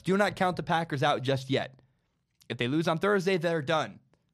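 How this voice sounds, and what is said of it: Hoarse, partly lost voice. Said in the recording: “I lost my voice. I still can't talk 100%. I'm coughing like all the time.”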